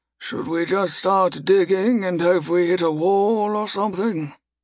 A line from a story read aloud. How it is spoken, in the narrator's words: Typhonius sighed loudly and pointedly at the two non-mages